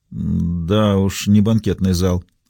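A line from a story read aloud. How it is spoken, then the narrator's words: Mumbling. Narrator (Russian): пробормотала я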